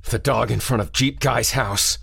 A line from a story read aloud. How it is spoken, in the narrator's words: he croaked